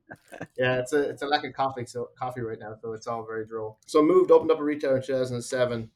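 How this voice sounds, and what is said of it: Irish accent. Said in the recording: “I actually moved to the States from Ireland... he has a sexy accent”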